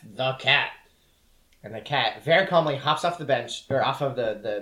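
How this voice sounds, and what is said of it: Usual voice. Nothing is said of it.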